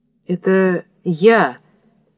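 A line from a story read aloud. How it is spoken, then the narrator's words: Timid. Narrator (Russian): робко сказал Родион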